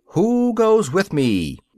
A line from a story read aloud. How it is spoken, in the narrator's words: Rochus cried again